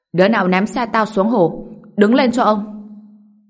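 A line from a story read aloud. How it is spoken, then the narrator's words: Furious yelling. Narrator (Vietnamese): Lý Hạo Sâm đang hầm hầm gào lên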